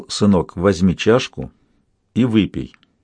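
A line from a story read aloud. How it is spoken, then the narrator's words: Old man speaking quietly. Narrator (Russian): Старик тихо сказал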